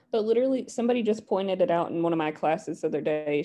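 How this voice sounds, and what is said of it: Mild Appalachian accent. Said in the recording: “my accent is still here, but not nearly as thick as a lot of people from where I'm from ... I can hear that you're from Appalachia.”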